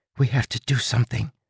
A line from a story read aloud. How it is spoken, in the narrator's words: whispered